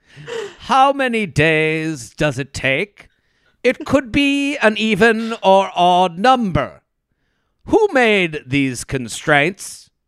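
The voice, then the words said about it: Exaggerated dramatic poetry-reading voice. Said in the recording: “I'm going to read it in my best poetry voice.”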